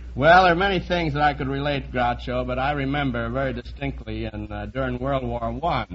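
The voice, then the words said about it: Strong accent. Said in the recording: “you sound just like my brother Chico”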